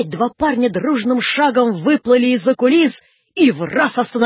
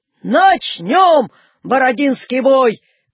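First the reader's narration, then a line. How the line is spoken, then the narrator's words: Shouting. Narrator (Russian): крикнул Наполеон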